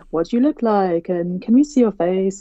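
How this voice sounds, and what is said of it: Poor imitation of other people's voices. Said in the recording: “that's not their voices, so that's a terrible impression.”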